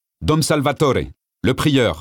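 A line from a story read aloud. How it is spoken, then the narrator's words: Curt annoyed reply. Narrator (French): répondit sèchement le frère portier, agacé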